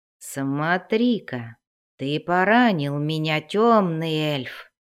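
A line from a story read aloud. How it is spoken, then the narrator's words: Creaky, unbothered by pain. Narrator (Russian): проскрипел, явно не чувствуя боли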